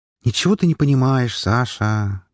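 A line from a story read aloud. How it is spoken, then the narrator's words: Heavy sigh. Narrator (Russian): тяжело вздохнула Уна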